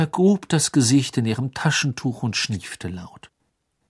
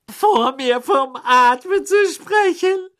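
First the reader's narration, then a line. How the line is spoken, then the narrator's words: Shrill, loud, echoing female voice. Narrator (German): sagte sie schrill, und ihre Stimme hallte laut im Badezimmer wieder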